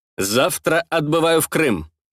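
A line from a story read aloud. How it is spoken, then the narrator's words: Crisp, clipped. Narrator (Russian): отчеканил я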